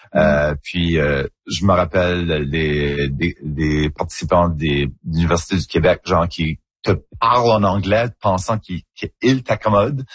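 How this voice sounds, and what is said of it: Acadian French accent. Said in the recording (French): “notre accent ... mon accent en acadien. C'est comme ça qu'on parle ... un accent un petit peu plus coloré, un petit peu plus arrondi”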